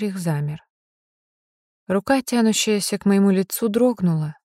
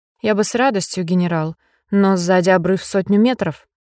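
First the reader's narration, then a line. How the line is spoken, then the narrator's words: Furious bark. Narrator (Russian): рявкнула я, чувствуя, как уходит страх, уступая место чистому бешенству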